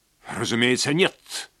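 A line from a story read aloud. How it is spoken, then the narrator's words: Sharp reply. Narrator (Russian): резко ответил Хансен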